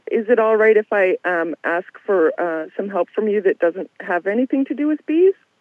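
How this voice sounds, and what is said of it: Voice that is giving out. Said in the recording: “losing your voice”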